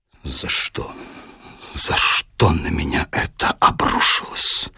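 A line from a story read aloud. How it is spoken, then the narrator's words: Grief-stricken whisper. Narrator (Russian): потрясенный, уничтоженный, с искаженным горем и страданием лицом, запекшиеся губы шептали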